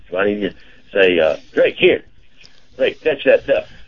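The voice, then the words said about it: Put-on Southern US accent. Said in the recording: “should I need to use a southern accent? Because, you know, he was raised by, he's a trainer that had a southern accent.”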